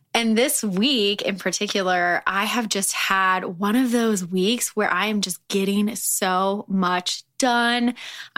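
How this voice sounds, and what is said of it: Slightly raspy voice. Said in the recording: “My voice is still a little raspy,”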